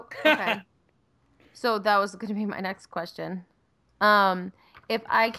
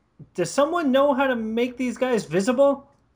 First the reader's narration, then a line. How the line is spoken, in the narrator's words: Gibetto yells out